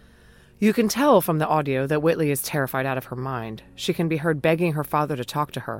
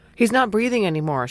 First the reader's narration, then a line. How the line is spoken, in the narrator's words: she says breathlessly